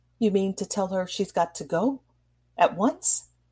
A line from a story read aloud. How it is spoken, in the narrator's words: he faltered out, in terror of letting his wife complete her sentence